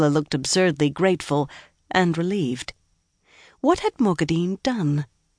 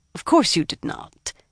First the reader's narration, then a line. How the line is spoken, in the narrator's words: Mogadine said irritably